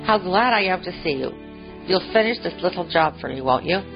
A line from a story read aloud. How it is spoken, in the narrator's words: exclaimed Father Warren